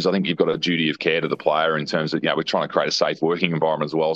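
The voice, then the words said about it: Gravelly, dulcet radio voice. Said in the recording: “You have got a very good radio voice. ... it's a great voice. Very gravelly. ... dulcet”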